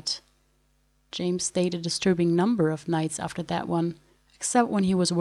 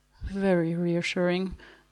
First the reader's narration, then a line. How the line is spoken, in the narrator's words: murmured Q